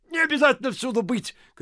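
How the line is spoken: Shouting. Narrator (Russian): кричал Ляпис

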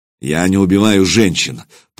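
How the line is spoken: Through clenched teeth. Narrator (Russian): процедил Сергей Иванович

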